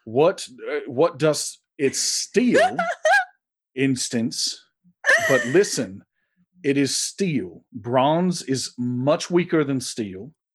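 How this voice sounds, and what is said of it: Thick put-on dialect. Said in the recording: “I do have sometimes trouble with people's dialects as thick as thine”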